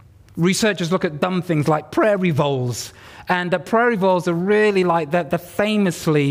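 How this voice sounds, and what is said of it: Usual voice. Nothing is said of it.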